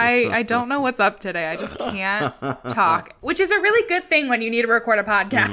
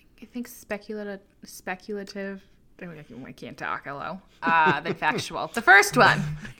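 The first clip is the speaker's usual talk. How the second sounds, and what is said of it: Slight New York accent. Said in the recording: “Got like a little New York accent.”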